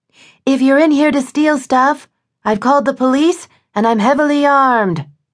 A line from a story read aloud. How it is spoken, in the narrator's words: she yelled